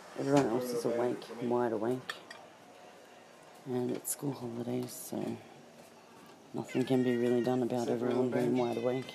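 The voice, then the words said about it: Sore, strained voice. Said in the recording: “My voice is really sore.”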